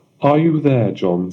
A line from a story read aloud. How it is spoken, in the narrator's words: said the king